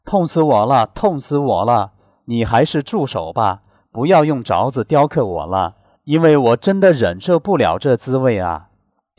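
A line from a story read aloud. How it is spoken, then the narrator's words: Screaming in pain. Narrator (Chinese): 石头 难以忍受被雕琢的剧烈疼痛，终于在2个时辰后大叫道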